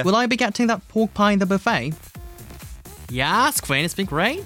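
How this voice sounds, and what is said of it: Yorkshire accent. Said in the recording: “I'm loving his Yorkshire accent, it's great.”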